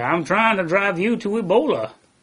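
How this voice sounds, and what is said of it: Imitates another person's voice. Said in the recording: “good impersonation”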